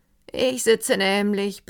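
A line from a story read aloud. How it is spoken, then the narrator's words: Careless purring manner. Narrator (German): begann er in seiner nachlässigen und schnurrenden Weise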